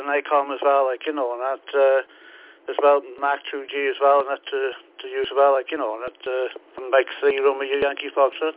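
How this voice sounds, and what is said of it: Welsh accent. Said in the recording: “that accent seems very Welshish, very Welsh”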